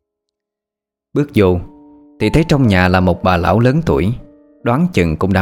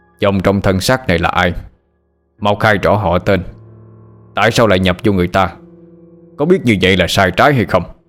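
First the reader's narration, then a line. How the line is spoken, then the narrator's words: Angry old woman. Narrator (Vietnamese): Bà lão tỏ vẻ giận dữ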